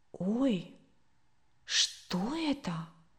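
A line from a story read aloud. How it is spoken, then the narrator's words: Quiet questioning. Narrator (Russian): тихо и вопросительно произнесла Катя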